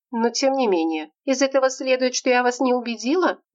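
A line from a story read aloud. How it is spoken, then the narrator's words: Sad question. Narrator (Russian): грустно спросила Ромашевская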